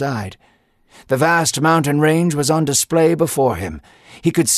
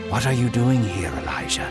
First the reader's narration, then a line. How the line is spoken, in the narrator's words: God asked gently